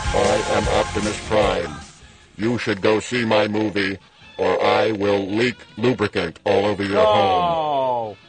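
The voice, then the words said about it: Robotic Optimus Prime character voice. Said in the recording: “let me put on my Optimus Prime voice-changing helmet”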